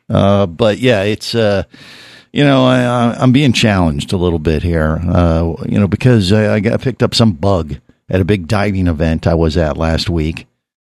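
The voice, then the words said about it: Sick, rough-sounding voice. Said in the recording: “I'm a little bit under the weather. I don't sound my typical radio voice. Actually, I sound more sexy”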